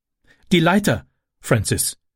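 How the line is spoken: Called out. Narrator (German): rief sie

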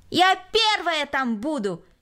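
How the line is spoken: Shouted. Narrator (Russian): крикнула Кристина

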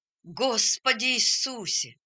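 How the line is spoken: Exclamation. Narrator (Russian): воскликнул он

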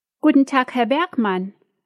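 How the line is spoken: Called out. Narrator (German): ruft Dina

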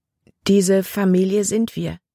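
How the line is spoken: Plain question. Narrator (German): fragte Libby

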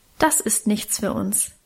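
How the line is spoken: Plain. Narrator (German): sagte er wieder

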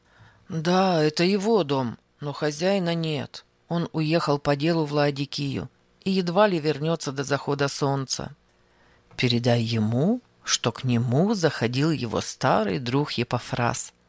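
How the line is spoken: Plain. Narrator (Russian): сказал человек

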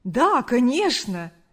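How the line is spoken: Joyful reply. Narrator (Russian): радостно ответил парень

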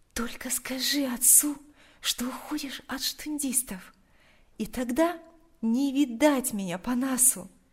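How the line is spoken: Quiet. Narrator (Russian): тихо произнесла она

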